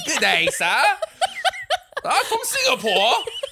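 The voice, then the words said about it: Terrible put-on British accent. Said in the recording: “different accents that I can't ... A lot of terrible British accents for no reason.”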